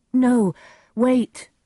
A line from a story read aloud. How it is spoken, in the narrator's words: Romeo cried